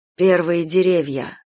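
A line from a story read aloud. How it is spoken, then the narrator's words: Sigh. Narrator (Russian): вздохнул Филипп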